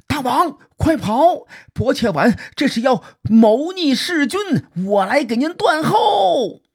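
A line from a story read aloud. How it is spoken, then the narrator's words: Feigned terrified shout. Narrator (Chinese): 费无极还在装小白兔，惊恐的喊道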